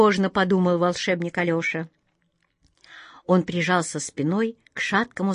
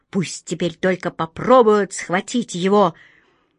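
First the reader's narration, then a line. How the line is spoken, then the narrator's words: Distant militant cat meow-hiss. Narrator (Russian): Где-то воинственно мяукнул и зашипел кот Васька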